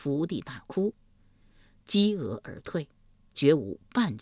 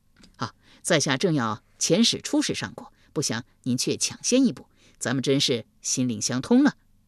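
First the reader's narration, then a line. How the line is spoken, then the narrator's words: Fawning, ingratiating. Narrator (Chinese): 夷吾一脸媚笑道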